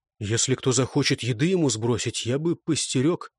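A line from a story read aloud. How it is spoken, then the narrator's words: Low-voiced suggestion. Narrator (Russian): он вполголоса предложил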